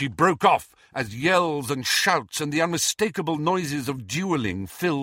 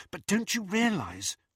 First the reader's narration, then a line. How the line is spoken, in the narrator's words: whispered Hermione